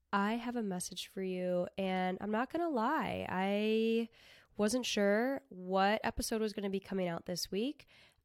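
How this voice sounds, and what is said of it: Sniffly, congested sick voice. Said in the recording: “in my sniffly voice ... I have been sick. I've been very sick for an entire week now”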